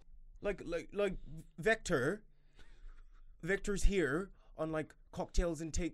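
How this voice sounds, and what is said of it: Attempted Irish accent. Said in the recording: “I can do an Irish accent ... no, my Irish is bad ... No, that was good.”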